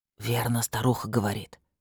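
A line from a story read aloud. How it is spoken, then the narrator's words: Whisper in ear. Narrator (Russian): шепнул на ухо Года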